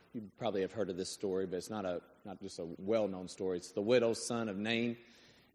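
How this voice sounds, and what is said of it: Hoarse, strained voice. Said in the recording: “apologize for my voice a little bit... I blew my voice out coaching”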